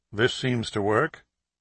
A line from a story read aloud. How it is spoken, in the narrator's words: Steve said quietly